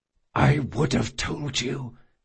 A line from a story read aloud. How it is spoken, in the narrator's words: he whispered